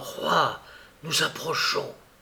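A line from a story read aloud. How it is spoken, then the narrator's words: Whispered, forester. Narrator (French): le forestier dit tout bas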